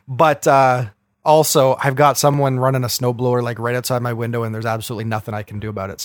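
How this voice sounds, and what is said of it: Rough, sick-sounding voice. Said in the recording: “I'm sick as a dog. My voice is going to probably sound a little rough today.”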